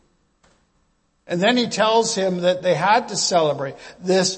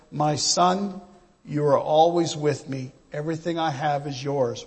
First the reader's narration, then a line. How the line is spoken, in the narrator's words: he simply and calmly says